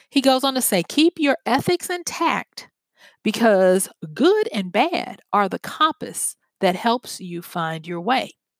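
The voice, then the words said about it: Slow, deliberate speech. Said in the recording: “I'm saying this slowly”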